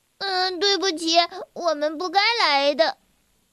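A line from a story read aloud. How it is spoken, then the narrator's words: Crying. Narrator (Chinese): 小薇哭着说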